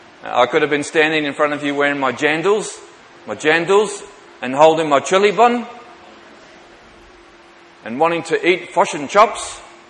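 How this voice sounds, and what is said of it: Bad put-on New Zealand accent. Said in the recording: “Hope there's no Kiwis amongst us. ... Apologies for the really bad accent.”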